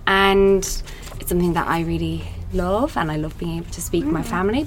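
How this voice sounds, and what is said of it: Irish accent. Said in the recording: “Obviously, you're from Ireland. It wasn't hard to pick that accent.”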